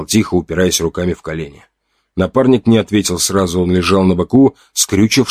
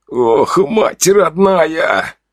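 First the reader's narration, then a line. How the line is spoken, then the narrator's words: Loud strangled groan. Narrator (Russian): Он застонал уже в полный, пусть и сдавленный голос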